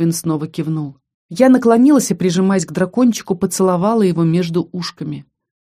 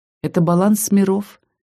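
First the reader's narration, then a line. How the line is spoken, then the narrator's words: Quiet whisper. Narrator (Russian): тихо прошептала ему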